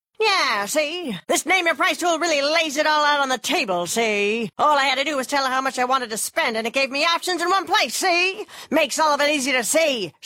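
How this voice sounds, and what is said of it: 1930s gangster voice. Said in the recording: “my impression of a 1930s gangster”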